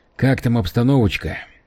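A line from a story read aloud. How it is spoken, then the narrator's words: Quiet question. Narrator (Russian): тихо спросил его Скайлер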